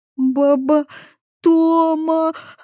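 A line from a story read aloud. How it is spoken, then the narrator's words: Sobbing. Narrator (Russian): прорыдала Катя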